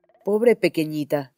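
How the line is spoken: Old woman exclaiming. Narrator (Spanish): exclamó la anciana

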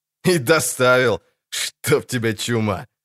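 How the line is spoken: Guffawing laughter. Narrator (Russian): захохотал Гербаль

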